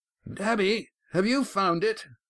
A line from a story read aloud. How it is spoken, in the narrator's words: Adamin's shout was muffled by the door